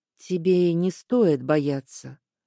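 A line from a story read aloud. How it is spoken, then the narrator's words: Soft. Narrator (Russian): мягко сказал Аскольд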